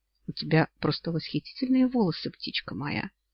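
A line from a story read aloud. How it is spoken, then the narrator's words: Low, very pleased purr. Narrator (Russian): мурлыкнул низким и, ну, очень довольным голосом Олли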